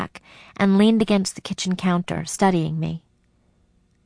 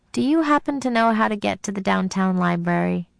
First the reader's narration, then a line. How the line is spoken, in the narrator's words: She laughed